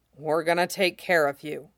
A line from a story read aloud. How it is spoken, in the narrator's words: Cody murmured